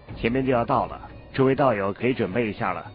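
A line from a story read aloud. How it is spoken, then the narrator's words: Calm, flat remark. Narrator (Chinese): 韩立…淡淡说了一句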